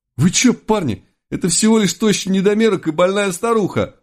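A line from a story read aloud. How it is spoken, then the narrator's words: Howling, street gang leader. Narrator (Russian): взвыл тупоголовый главарь уличной шпаны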